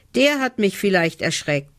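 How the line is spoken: Relieved call. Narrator (German): ruft erleichtert

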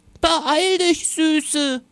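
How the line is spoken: Grandmother calling out. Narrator (German): rief Oma

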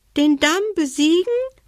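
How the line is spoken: Small squeaky voice. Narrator (German): piepste die Haselmaus

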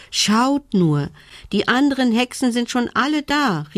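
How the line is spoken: Excited shout. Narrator (German): rief sie aufgeregt

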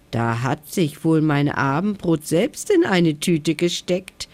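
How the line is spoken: Mocking giggle. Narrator (German): kicherte er höhnisch

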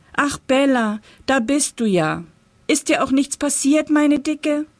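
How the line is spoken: Called out. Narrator (German): rief er

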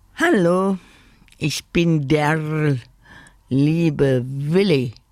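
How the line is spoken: Croaking. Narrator (German): krächzte er

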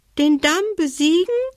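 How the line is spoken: Dormouse squeaking. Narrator (German): piepste die Haselmaus

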